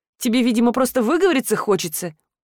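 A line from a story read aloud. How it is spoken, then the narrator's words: Scoffing. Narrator (Russian): хмыкнула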